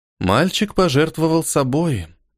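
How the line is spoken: Goddess sighing sadly. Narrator (Russian): грустно вздохнула богиня

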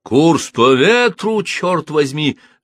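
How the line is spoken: Captain shouting over storm. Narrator (Russian): закричал капитан Паркер таким зычным голосом, что он перекрывал грохот шторму

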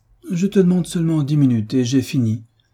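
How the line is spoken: Pleading tone. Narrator (French): reprit Frédéric d'un ton suppliant

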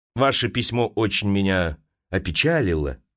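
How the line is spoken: Plain. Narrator (Russian): сказал он

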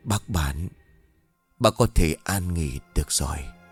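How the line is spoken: Whisper to unseen listener. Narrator (Vietnamese): vị quan này miệng thì thào như nói với một ai đó

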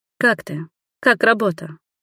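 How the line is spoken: Quiet, sympathetic question. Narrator (Russian): спросила тихо и участливо

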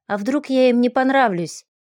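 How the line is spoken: Heavy sigh. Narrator (Russian): Тяжело вздохнула

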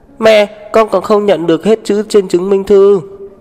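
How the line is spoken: Shouting. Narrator (Vietnamese): tiểu đồ tử hét về phía cô chủ nhà

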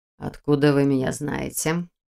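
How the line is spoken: Stern question. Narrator (Russian): строго спросил Нев

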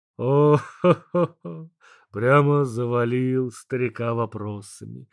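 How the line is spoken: Laughing. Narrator (Russian): рассмеялся Бог

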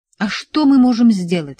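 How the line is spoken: Snapped. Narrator (Russian): огрызнулся инженер

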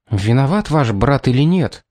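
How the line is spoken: Furious whisper. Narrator (Russian): яростным шепотом спросила она

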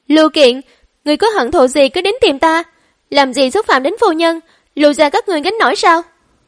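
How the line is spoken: Angry shout. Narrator (Vietnamese): Trương Anh cũng hét lên

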